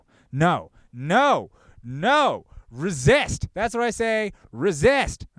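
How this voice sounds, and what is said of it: Yelling loudly. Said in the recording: “I'm yelling in public. People are staring at me.”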